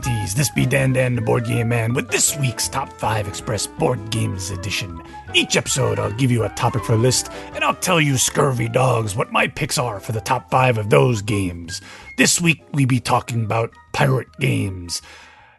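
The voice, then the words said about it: Pirate-style character voice. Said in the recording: “I'm not going to do that voice for the whole episode ... enough of the voice acting”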